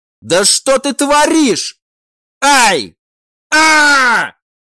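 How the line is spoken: Screaming soldier. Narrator (Russian): завопил один из солдат

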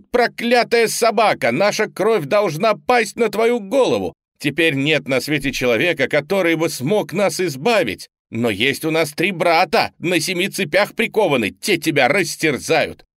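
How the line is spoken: Three voices shouting together. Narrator (Russian): все три, как крикнут

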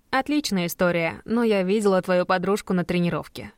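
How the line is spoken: Snorting. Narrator (Russian): фыркнула Джордан

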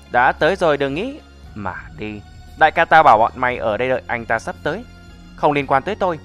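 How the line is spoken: Mocking voice from door. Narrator (Vietnamese): từ cửa truyền ra giọng mỉa mai

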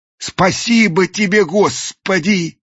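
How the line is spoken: Man shouting nearby. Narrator (Russian): кричал рядом журналист

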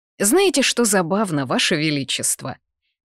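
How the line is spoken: Mocking, menacing. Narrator (Russian): насмешливо поинтересовался, угрожающе надвигаясь

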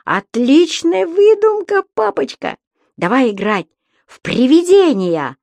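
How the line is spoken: Delighted shout. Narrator (Russian): в восторге крикнул Субастик

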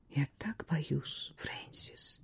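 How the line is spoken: Whisper. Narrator (Russian): прошептала она

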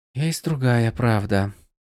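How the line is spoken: Whispered. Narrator (Russian): прошептала Шалан

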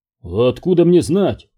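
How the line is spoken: Mumbling. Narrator (Russian): пробурчал другой врач

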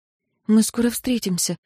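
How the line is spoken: Whisper. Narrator (Russian): прошептала София

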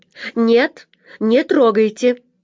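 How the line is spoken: Urgent exclamation. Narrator (Russian): воскликнул Эллери

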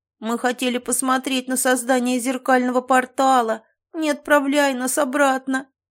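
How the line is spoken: Whimpering little ones. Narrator (Russian): захныкали мелкие

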